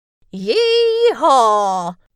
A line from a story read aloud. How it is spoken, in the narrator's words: shout all the cowboys